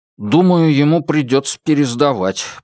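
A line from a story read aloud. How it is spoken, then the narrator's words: Grumbling. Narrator (Russian): проворчал четвертый брат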